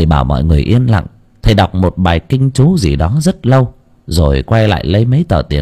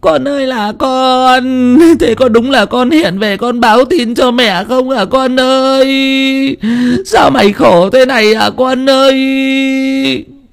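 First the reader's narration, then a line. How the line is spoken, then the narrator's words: Grief-stricken wailing. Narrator (Vietnamese): Bà mẹ kia vừa đấm ngực thùm thụp, kêu gào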